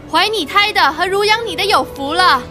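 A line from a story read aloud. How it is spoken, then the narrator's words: Woman speaking loudly. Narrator (Chinese): 一个女人大声说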